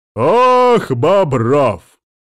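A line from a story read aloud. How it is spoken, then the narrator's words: Loud exhale. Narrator (Russian): старик громко выдохнул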